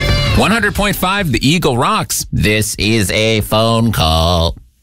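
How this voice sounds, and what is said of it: Robotic voice. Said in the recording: “not an actual robot. I was doing a voice.”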